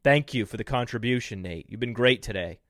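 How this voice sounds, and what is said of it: Sarcastic delivery. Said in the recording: “That was sarcastic.”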